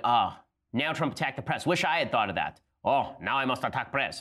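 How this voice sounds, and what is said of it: Vague put-on foreign accent. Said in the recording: “I don't even know what that accent was”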